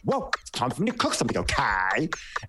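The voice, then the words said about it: Imitates another person's voice. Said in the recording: “I love doing Ramona. ... It's my favorite impersonation”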